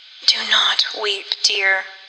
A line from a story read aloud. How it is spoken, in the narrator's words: she said feebly